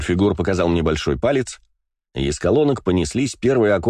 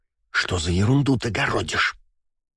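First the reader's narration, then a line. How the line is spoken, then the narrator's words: Hissed into ear. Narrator (Russian): прошипела мне на ухо Валькирия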